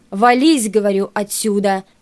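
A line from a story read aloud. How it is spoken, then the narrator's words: Barked. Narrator (Russian): гаркнул на него Кирпиченко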